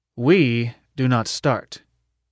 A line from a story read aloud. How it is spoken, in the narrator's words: Adam answered